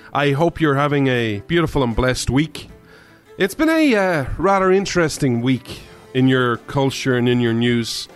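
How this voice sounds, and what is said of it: Irish accent. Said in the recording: “This Irishman ... where you come for the accent”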